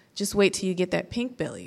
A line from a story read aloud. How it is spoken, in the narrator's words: said Roberts